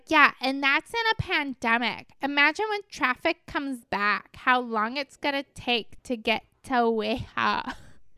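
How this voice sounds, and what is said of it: Imitates another person's voice. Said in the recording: “putting on a voice. That's not how they talk.”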